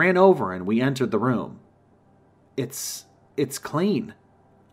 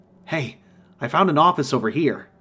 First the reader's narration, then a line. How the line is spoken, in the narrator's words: I exclaimed